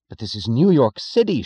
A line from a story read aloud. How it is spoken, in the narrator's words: she cried to herself in defense of the greatness she had loved